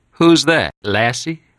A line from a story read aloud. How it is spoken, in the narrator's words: Johnny laughed